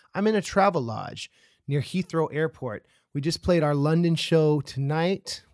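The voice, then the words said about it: Scratchy voice. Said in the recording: “my voice is a little scratchy”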